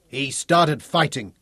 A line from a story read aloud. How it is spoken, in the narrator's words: the shaggy-headed accuser bellowed